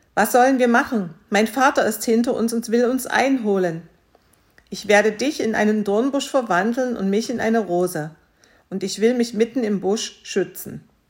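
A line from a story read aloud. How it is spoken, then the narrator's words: Calling out. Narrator (German): rief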